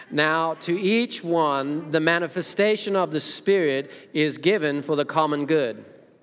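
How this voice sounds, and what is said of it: Attempted American accent. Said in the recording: “I'll try to be American accent then.”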